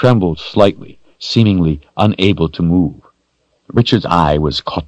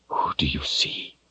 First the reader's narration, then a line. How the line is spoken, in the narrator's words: he whispered again